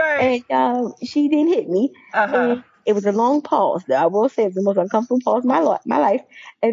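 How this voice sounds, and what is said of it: Usual voice. Nothing is said of it.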